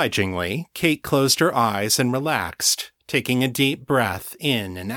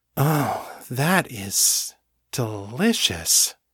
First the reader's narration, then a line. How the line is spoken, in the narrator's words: she breathed